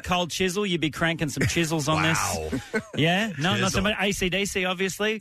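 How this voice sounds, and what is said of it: Australian accent. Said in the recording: “obviously you have an Australian accent.”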